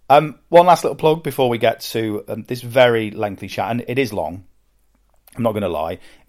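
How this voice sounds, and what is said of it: British accent. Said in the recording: “I'm British and have a British accent and sound like I live in a castle”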